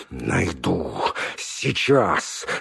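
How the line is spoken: Furious through teeth. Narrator (Russian): стервенея от злости процедил он

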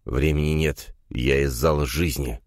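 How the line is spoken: Through gritted teeth. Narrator (Russian): процедил Элем сквозь стиснутые зубы

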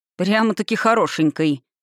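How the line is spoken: Snorting. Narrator (Russian): хмыкнул Ранар

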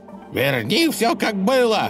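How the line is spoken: Yelling. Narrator (Russian): орал он на богатыря

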